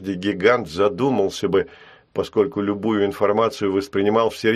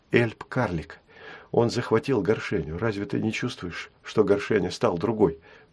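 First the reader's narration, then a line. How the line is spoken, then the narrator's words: Whispered. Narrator (Russian): прошептала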